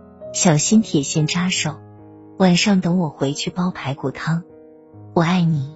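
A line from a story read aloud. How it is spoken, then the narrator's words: Tender. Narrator (Chinese): 男人温柔的说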